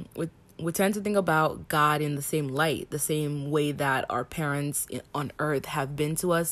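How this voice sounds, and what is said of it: Heavy accent. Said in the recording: “my accent is coming out heavy today”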